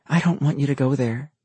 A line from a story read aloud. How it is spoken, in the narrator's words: she whispered